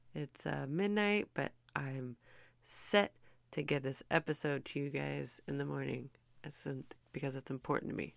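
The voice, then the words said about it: Tired, worn-out sounding voice. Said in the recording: “my voice is sounding a little burned out right now”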